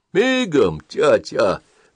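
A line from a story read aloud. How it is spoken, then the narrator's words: Muffled reply. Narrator (Russian): глухо отвечал тот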